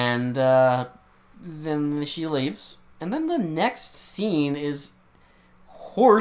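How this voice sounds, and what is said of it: Usual voice. Nothing is said of it.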